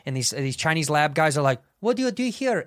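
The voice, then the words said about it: Put-on East Asian accent. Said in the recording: “I'm laughing with the accent first ... What, the Korean?”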